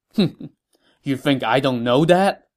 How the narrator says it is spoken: Guan Yu said with a laugh

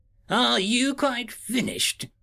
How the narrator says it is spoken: the major scoffed

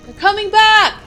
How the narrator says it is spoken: a serviceman yelled again

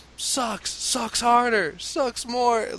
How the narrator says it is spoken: 25 guys are yelling

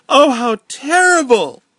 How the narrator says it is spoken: Elizabeth wailed

